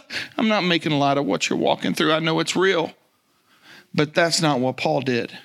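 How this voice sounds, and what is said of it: Usual voice. Nothing is said of it.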